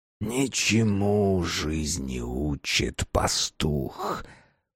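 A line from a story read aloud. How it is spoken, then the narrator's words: Hissed in ear, dog mouth. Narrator (Russian): прошипела на ухо собачья пасть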